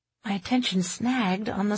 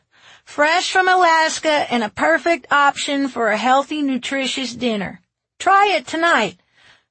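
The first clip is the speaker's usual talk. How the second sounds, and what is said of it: Droning voice, slight southern accent. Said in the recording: “a voice droned ... the slight southern accent”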